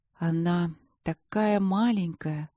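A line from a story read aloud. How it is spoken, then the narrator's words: Thoughtful, queen. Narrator (Russian): задумчиво проговорила королева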